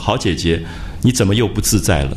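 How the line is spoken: Smiling question. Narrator (Chinese): 他就笑着问

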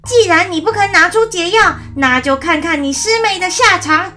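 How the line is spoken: Furious cursing. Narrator (Chinese): 悟空大怒，骂道

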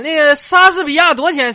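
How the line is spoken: Flustered hurried question. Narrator (Chinese): 一着急说错了，张口我就问老板

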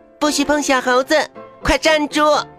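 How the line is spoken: Loud shout. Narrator (Chinese): 妮妮大声喊

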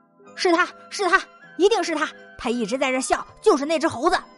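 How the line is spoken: Loud shout. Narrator (Chinese): 那清风 大喊道

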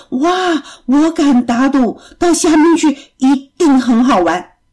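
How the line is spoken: Excited loud cry. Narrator (Chinese): 贝贝不禁大声的叫了起来，说

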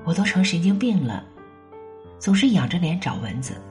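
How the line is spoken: Sorrowful sigh. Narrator (Chinese): 红悲叹

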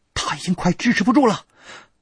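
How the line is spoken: Shouting. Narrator (Chinese): 薛里阳 对我喊

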